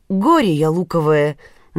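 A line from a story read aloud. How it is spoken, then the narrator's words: Exclamation. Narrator (Russian): наконец воскликнул он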